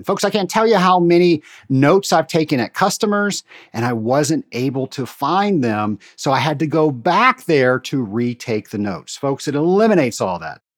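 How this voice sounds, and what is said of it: Excited, enthusiastic speaking voice. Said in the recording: “you can hear in my voice, I'm very excited”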